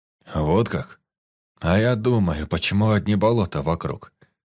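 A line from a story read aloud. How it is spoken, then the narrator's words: Plain. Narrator (Russian): Сказал майор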